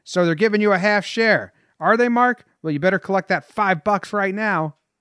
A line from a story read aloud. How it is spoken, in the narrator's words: Ruth called out to Koenig